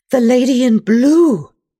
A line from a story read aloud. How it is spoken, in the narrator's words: gasp